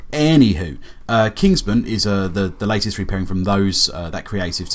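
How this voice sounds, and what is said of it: Usual voice. Nothing is said of it.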